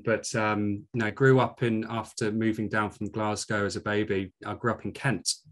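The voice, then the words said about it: Scottish accent. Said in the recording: “you don't sound like your accent's from Yorkshire... I'm a proud Scot, as you can tell from my accent”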